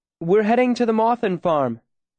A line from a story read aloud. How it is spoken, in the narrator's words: Denna called out as he came closer